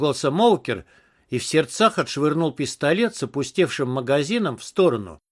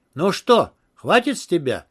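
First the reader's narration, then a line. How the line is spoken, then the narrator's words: Triumphant exclamation. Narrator (Russian): победно воскликнул Моукер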